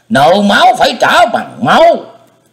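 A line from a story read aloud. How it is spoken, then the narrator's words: Old man's furious roar. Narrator (Vietnamese): Lão quái nhân trợn tròn thiết nhãn thét vàng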